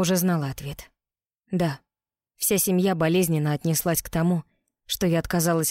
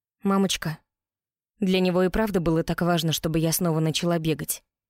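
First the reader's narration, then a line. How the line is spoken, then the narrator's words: Plain. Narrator (Russian): Спросила я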